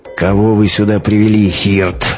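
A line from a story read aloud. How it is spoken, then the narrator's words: Menacing growl. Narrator (Russian): грозно прорычал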